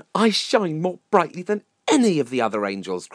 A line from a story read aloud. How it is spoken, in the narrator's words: cried Lucifer